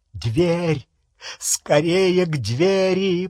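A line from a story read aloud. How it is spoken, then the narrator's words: Groaning close to ear. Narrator (Russian): простонал Малфой в ухо Гарри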